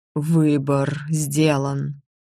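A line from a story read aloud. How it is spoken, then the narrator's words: Strained exhale. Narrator (Russian): с трудом выдохнул лорд Эриной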